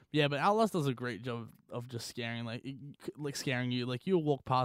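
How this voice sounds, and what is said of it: Usual voice. Nothing is said of it.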